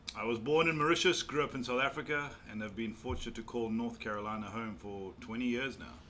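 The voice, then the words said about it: Noticeable foreign accent. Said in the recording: “that accent, tell us about that accent.”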